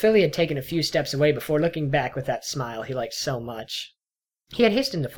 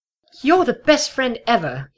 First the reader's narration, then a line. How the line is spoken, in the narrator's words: blurted out